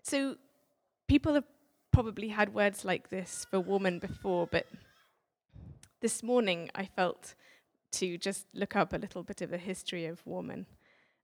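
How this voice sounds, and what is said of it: Strong accent. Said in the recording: “my accent's even stronger than Stephen's”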